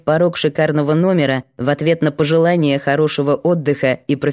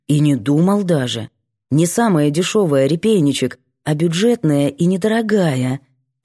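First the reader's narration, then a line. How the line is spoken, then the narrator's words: Soft clarification. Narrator (Russian): мягко уточняет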